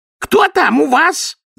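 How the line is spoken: Yelling. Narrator (Russian): завопила миссис Трата

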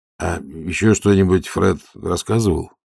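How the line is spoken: Timid question. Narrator (Russian): робко спросил

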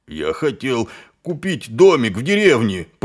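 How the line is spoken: Moaned. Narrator (Russian): простонал Колон

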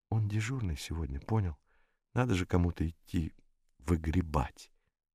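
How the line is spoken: Whispered explanation. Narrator (Russian): объяснял шепотом

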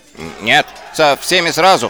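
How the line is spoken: Shouted. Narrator (Russian): прокричал Шнопс

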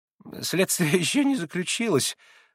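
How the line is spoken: Embarrassed babbling. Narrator (Russian): залепетал Николай Парфенович, несколько сконфузясь

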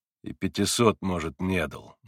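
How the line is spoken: Gloomy remark. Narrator (Russian): мрачно заметил на это Митя

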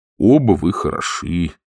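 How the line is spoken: Sad. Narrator (Russian): грустно сказал он

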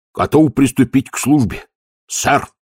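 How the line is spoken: Barked shout. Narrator (Russian): гаркнул он

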